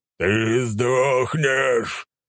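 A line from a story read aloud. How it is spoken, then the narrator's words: Monster growling. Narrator (Russian): прорычал монстр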